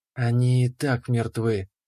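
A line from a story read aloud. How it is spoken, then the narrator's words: Quiet dryad voice. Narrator (Russian): тихо сказала дриада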